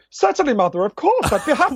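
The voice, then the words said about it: Weird posh voice. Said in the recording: “I had this weird posh voice”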